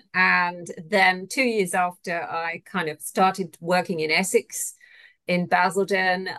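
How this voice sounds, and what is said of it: British English accent. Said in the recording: “everyone thinks I'm Australian ... you can tell by my accent that I'm not. I'm originally from the UK”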